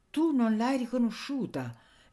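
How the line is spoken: Agitated exclamation. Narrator (Italian): esclamava Anania palpitando, meravigliandosi di Bustianeddu

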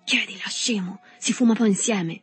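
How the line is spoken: Whispered. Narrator (Italian): sussurrandogli

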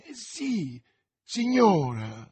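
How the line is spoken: Exclaimed. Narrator (Italian): esclamò

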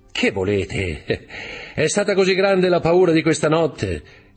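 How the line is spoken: Laughing. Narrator (Italian): disse ridendo Dantès

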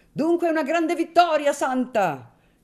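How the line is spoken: Friends shouting together. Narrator (Italian): gridarono gli amici

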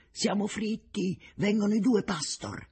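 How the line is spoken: Exclaiming. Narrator (Italian): A un tratto Richter esclama

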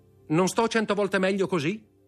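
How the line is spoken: Shouted. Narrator (Italian): gridò

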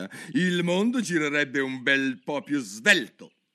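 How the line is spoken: Irritated growl. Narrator (Italian): ringhiò la duchessa indiperita

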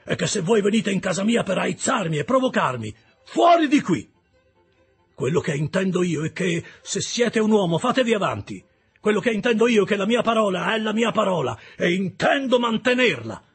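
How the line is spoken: Shout. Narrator (Italian): gridò

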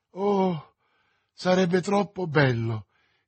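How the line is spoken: Exclaimed. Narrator (Italian): esclamò Madame Bonacieux

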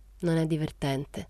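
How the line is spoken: Half-voiced, low. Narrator (Italian): disse Rosetta a mezza voce

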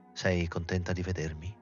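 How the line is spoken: Quiet question. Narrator (Italian): domandò lui sottovoce

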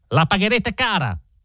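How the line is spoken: Furious yell. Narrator (Italian): urlò Stangerson, bianco di rabbia

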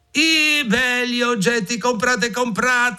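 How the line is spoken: Shouting. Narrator (Italian): gridò

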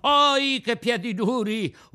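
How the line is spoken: Boy yelling. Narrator (Italian): urlò il ragazzo

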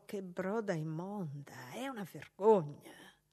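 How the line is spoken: Disgusted whisper. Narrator (Italian): una di loro, quella robusta, bisbigliò

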